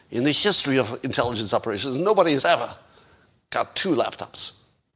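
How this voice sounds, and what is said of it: Bad put-on Russian accent. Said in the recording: “this is my bad Russian accent”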